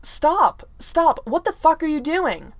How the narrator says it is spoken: Clint immediately captures Tony's hands and shouts

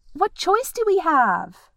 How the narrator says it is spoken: yelled Keely

